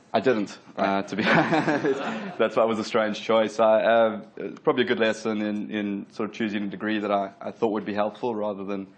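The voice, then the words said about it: South African accent. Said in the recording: “you got a funny accent, but like me ... I grew up in Durban, South Africa, moved to Australia about 12 years ago”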